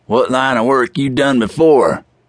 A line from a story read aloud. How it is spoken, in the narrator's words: One of the four men called out